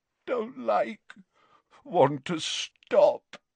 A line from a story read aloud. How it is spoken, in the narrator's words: moaned Dumbledore